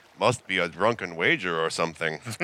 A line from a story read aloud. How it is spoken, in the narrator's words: blandly say